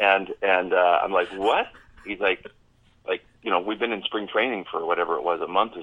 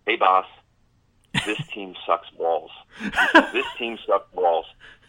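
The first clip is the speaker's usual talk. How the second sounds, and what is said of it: Imitated Long Island accent. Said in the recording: “in his Long Island accent”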